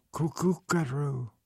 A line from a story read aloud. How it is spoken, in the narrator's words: Hannah whispered